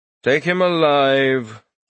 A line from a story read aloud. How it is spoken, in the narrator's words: the Tyrant King said lazily